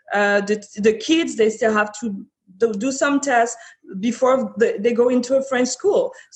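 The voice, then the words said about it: French-speaker's accent in English. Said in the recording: “I'm Francophone, you might have heard by my accent”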